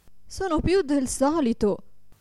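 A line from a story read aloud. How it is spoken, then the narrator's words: Desperate exclamation. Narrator (Italian): esclamava disperata la povera signora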